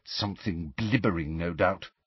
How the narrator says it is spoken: said Hermione under her breath

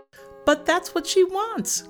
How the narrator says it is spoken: cried Gretel

